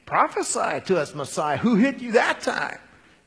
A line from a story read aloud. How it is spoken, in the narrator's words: they were jeering, saying